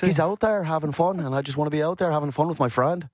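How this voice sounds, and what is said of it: Brooks Koepka impression, Irish-sounding accent. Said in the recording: “great accent ... You're like Conor McGregor almost. Fading into McGregor. ... It's the Northern Ireland.”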